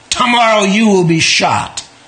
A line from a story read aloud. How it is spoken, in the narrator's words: His pride deeply wounded, he angrily twirled around and told Josika